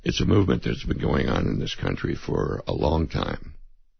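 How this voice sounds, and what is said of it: Hoarse voice. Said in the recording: “Excuse me again for my hoarseness.”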